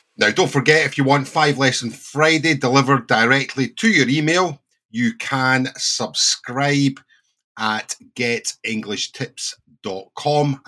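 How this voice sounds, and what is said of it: Slight Scottish accent. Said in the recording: “a native British English teacher ... with a little Scottish accent”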